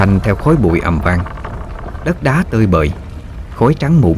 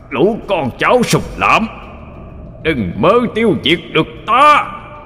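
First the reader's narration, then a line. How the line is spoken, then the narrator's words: Wounded demon's horrifying roar. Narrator (Vietnamese): Thánh quỷ trúng đòn, gầm lên một tràng ghê rợn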